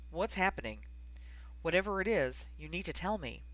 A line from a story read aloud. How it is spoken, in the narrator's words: he asked gravely